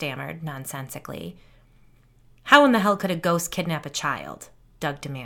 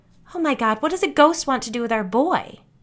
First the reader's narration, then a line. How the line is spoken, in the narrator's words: Doug snapped at his wife